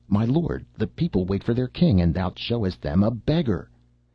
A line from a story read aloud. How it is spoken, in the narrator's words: some of them cried out